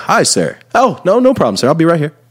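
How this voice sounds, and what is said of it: Polite, smiling customer service voice. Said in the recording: “the smile and the customer service voice ... You got to go customer service ... I'm always so polite”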